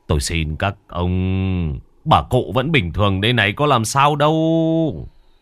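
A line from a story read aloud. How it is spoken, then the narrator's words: Sighing. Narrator (Vietnamese): Đoạn thở dài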